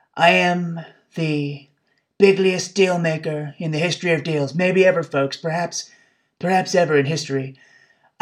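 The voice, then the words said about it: Imitates another person's voice. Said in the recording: “my Trump impression”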